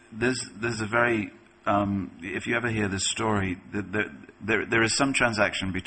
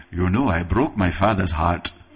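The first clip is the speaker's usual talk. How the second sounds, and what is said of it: Put-on African accent. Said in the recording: “That was my African accent. I'm half African, I can do it.”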